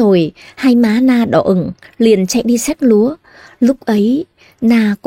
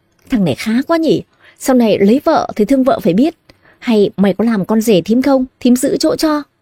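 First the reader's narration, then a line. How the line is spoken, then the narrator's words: Laughing heartily. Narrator (Vietnamese): Thím Thoa bật cười ha hả, bèn nói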